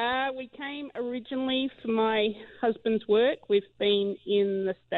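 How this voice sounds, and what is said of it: Usual voice. Nothing is said of it.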